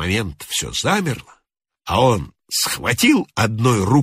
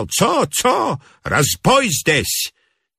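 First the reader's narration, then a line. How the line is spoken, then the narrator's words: Yelled, count. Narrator (Russian): Граф заорал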